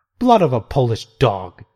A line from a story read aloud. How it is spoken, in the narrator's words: exclaimed